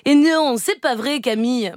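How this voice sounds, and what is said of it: Shaky Marseille accent imitation. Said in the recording (French): “j'ai essayé de vous imiter, Eva ... Avec l'accent de Marseille ... des accents bancals”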